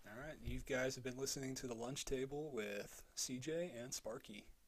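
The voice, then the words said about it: Radio DJ voice. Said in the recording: “That was my radio... DJ voice.”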